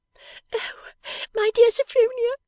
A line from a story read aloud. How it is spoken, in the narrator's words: cried Georgiana, wringing her hands